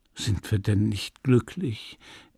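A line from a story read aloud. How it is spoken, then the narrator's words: Gentle young man. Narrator (German): entgegnete sanft der junge Mann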